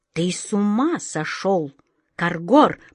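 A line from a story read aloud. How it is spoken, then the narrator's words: Hissing. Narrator (Russian): прошипел король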